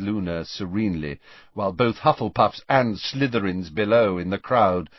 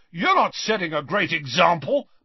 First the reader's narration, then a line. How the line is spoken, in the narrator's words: McLagan shouted back, red-faced and furious